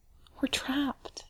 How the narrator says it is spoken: he whispers

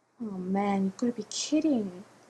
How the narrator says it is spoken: Jim muttered

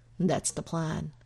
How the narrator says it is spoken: Eric tells Shaw blandly

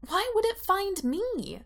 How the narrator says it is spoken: asks desperately

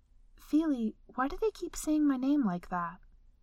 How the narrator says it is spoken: Bella asked quietly

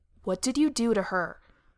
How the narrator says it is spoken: Sam growled

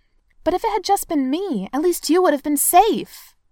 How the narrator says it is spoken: he says, and it's as if he's trying to plead

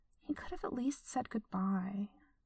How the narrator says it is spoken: she muttered

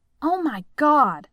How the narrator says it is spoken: she blurts out

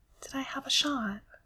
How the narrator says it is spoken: When he trusts his voice not to shake too much, he asks quietly

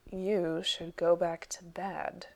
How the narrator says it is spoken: Gregor said dryly

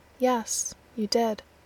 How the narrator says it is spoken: Gabriel says flatly

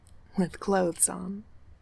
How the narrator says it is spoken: he says

